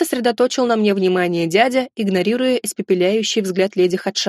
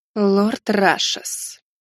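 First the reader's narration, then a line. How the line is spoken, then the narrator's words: Cold, through clenched teeth. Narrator (Russian): Холодно процедила темная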